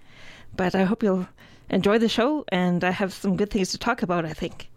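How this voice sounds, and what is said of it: Slightly out of breath. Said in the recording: “I sound a little bit out of breath”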